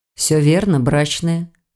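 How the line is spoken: Calm reply. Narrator (Russian): спокойно ответил лекарь

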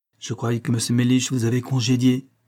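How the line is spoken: Plain. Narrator (French): dit-elle

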